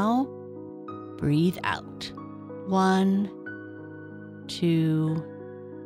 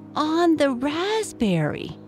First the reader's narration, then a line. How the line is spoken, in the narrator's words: cried Anna